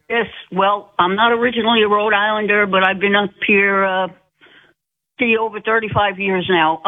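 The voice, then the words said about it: Rhode Island accent. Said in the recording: “I know that accent. I know that accent, darling. I know you're a true Rhode Islander.”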